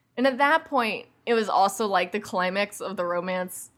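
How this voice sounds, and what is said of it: Put-on accent. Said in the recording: “I don't know why I said that with such an accent”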